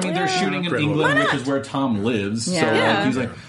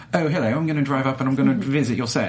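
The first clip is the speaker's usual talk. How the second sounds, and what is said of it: Put-on English accent. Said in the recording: “everyone in England is going to hate me because of that accent.”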